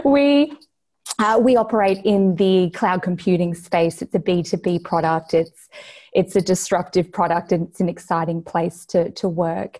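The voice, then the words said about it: Australian accent. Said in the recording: “based here in Brisbane, Australia. You can probably tell from my accent.”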